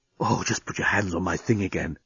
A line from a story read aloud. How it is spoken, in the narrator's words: he was whispering in her ear